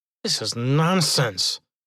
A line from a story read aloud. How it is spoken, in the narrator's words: muttered